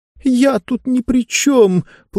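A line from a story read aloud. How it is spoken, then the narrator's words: Tearful complaining. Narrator (Russian): плачущим голосом жаловалась она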